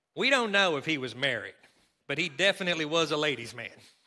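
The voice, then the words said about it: Put-on Kentucky accent. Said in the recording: “I'm going to do it in my Kentucky accent”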